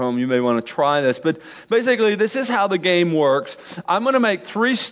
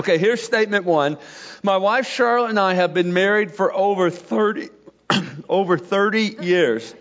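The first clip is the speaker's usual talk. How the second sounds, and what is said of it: Choked-up, emotional voice. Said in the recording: “got choked up on that ... That's a bad place to get choked up.”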